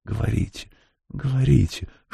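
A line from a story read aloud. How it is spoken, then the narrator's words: Whisper, faceless voiceless woman. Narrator (Russian): шепнула женщина без лица и голоса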